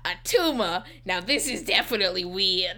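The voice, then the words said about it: Oscar the Grouch impression. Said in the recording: “what accent you just gave the doctor? ... Oscar the Grouch.”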